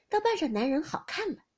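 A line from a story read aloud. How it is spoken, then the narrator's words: Old woman, laughing. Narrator (Chinese): 老太太才笑了，说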